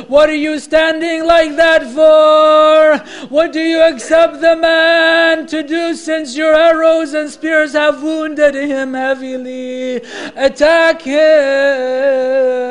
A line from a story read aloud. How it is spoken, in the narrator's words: Shimr ibn Dhil Jawshan shouted